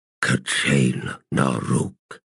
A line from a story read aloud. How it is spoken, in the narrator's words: it said in a low voice